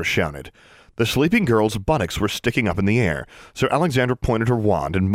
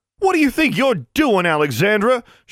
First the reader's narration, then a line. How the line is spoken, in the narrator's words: she shouted